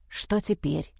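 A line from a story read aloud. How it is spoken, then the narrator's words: Whispering. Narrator (Russian): зашептал Джо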